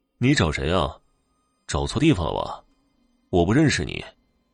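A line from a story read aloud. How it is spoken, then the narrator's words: Icy cold. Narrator (Chinese): 高伟冰冷冷的说道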